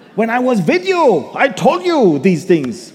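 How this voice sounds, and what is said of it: Put-on Hebrew accent as Paul. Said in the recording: “I can imagine Paul, the Jewish guy. ... In that Hebrew accent.”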